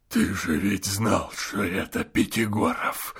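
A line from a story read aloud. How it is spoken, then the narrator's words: Hoarse undertone. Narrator (Russian): хрипел Евстрат Спиридоныч в полголоса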